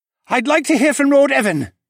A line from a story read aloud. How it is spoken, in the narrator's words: Katahi yelled